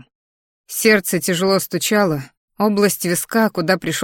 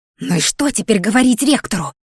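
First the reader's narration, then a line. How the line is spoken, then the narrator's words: Muffled hiss. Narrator (Russian): приглушённое шипение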